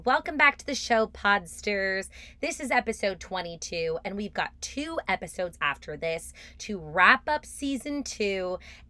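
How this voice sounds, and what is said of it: Slightly raspy voice. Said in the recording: “I'm still a little raspy, as you can hear”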